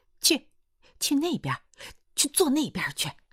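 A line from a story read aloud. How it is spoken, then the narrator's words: Torn, exasperated. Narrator (Chinese): 薛桂生哭也不是，笑也不是 说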